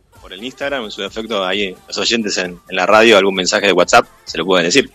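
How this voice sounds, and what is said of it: Deep announcer-like radio voice. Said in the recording (Spanish): “qué voz de locutor”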